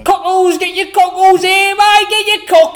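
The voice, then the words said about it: Put-on London Cockney accent. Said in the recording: “Who knows how to do a London accent?”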